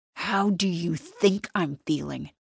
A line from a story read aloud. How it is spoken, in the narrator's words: he hisses